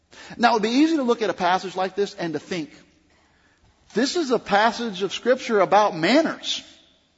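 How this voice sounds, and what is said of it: Southern American accent. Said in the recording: “I was raised in the South, if you can't tell by my accent.”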